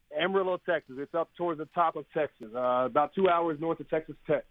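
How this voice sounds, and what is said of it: Texas accent. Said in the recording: “you're obviously from there. I can hear in your accent.”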